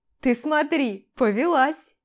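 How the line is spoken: Cheerful giggle. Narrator (Russian): Весело хихикает Антон

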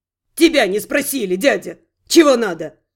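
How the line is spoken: Rude snarl. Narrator (Russian): грубо огрызнулся прыщавый

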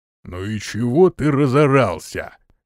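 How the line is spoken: Deep bass voice. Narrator (Russian): густым басом произнес низкий

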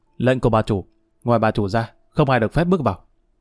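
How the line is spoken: Cold reply. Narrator (Vietnamese): Một tên lạnh lùng trả lời

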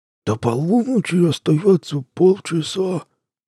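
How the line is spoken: Old ghoul's toothless mumble. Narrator (Russian): прошамкал старый упырь

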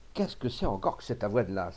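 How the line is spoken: Angry exclamation. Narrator (French): s'écriait-il avec colère

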